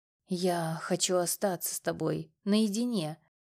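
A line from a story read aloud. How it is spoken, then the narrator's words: Hoarse whisper in ear. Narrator (Russian): хрипло прошептал он мне на ухо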